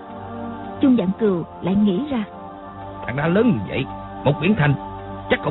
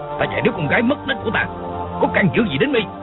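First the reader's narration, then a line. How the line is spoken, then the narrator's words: Furious shouted question. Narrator (Vietnamese): Hắn căm giận quát hỏi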